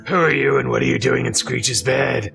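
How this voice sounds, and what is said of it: Sexy character voice. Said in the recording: “that's a very sexy voice you got there”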